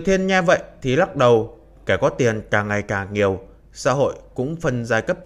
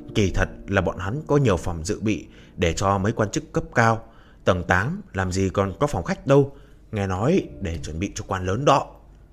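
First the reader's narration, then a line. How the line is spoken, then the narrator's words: Whispering. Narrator (Vietnamese): Vệ Dung Dung đi theo phía sau thì thầm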